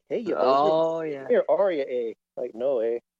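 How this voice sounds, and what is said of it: Put-on Canadian accent. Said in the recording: “that Canadian accent”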